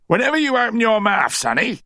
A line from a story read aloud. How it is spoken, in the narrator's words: he barked